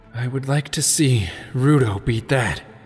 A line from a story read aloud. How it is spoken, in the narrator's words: Sheik panted